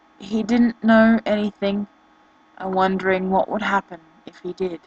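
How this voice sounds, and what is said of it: Australian accent. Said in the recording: “Sorry about my accent, not English, I'm Australian”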